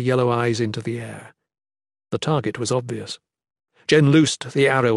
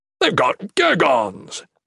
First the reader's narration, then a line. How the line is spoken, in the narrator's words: The Shadan exclaimed excitedly